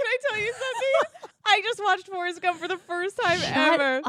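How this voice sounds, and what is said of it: Usual voice. Nothing is said of it.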